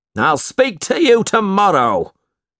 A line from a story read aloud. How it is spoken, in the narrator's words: he shouted